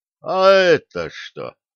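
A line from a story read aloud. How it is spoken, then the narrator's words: Grumbled by man. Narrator (Russian): Запнувшись об увесистую торбу, проворчал мужчина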